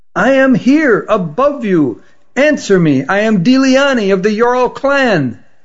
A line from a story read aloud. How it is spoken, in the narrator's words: shouted as loudly as she could